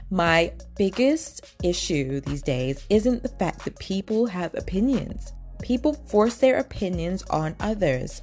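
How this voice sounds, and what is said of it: Imitates another person's voice. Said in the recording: “let me do the accent.”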